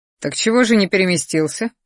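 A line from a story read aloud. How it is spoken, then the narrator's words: Snorting. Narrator (Russian): хмыкнул я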